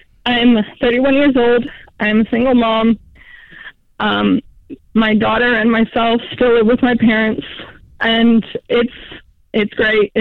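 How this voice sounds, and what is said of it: Emotional voice. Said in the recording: “a little bit of an emotional level, so I'm sorry about my voice.”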